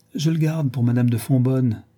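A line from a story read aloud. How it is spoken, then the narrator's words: Exclaimed. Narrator (French): s'écria le duc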